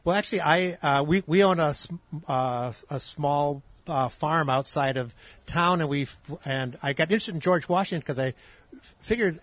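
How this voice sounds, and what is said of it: Wisconsin accent with slight twang. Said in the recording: “I'm actually from Wisconsin. If you find a funny twang in my voice”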